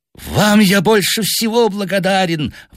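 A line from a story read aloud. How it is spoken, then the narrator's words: Hateful exclamation. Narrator (Russian): воскликнул он с ненавистью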